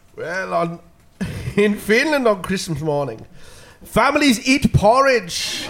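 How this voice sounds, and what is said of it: Put-on Finnish accent. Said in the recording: “in your best Finnish accent”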